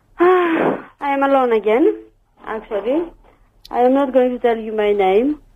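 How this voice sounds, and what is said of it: Noticeable foreign accent. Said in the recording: “What's your accent? ... I thought it was Polish”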